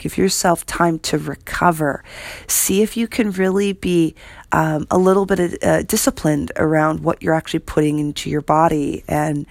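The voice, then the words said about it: Slightly hoarse, froggy voice. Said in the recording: “If you can hear in my voice, I have a little bit of a frog ... a little bit of a frog in my throat”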